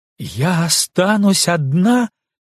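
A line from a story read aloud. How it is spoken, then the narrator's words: Loud. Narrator (Russian): громко сказала Велга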